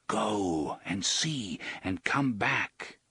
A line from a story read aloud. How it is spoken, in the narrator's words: Roland repeated in a whisper